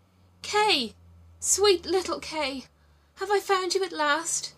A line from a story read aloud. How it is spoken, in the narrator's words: cried out